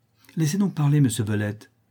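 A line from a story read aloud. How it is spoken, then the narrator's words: Impatient young woman's cry. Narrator (French): s'écria la jeune fille avec impatience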